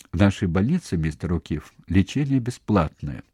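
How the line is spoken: Calm interruption. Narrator (Russian): спокойно прервал его директор

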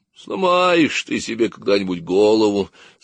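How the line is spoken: Sleepy old woman grumbling. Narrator (Russian): сонно проворчала Дубравкина бабушка

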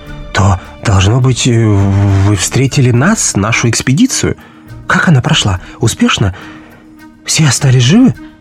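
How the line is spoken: Agitated. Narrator (Russian): взволнованно заговорил Экельс

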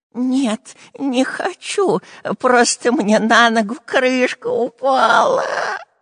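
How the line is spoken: Groaned. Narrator (Russian): простонал Дырка

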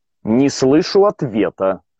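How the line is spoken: Angry. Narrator (Russian): сказал я зло

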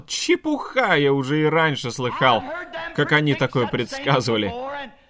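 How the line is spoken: Mocking laugh. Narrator (Russian): посмеялся над ним и сказал

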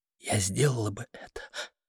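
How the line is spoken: Whisper. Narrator (Russian): продолжала она шепотом

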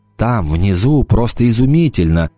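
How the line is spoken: Dreamy voice. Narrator (Russian): мечтательным голосом произнес он

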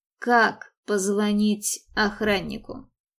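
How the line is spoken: Soft question. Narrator (Russian): Мэтт мягко спросил

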